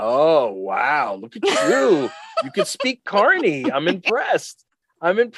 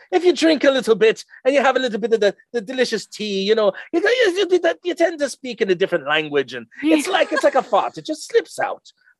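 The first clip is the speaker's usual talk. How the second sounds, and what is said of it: Weak attempt at Irish accent. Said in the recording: “I'm not doing a very good Irish accent right there”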